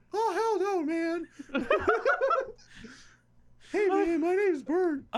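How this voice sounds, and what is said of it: High-pitched imitated voice. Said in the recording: “high voice ... Why are you making him sound like Mickey Mouse?”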